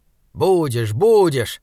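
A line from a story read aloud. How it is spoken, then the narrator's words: Irritated. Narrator (Russian): раздраженно сказал Саймон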